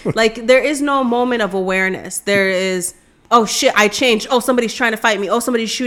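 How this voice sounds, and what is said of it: Usual voice. Nothing is said of it.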